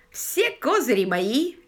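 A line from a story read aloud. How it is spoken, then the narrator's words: Cheerful exclamation. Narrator (Russian): весело воскликнул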